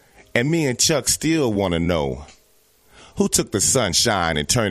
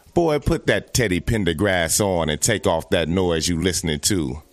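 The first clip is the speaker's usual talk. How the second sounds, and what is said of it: Imitates a scolding mother's voice. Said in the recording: “I sound like my mama.”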